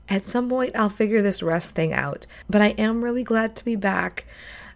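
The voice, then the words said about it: Congested voice from a cold. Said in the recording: “as you can hear from my voice, I have a cold.”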